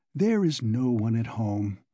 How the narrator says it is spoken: he said quietly and emphatically

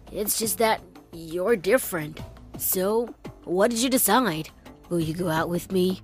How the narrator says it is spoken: he mumbled uncertainly

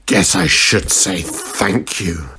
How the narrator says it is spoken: Sabretooth grunted

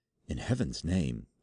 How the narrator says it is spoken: I whispered

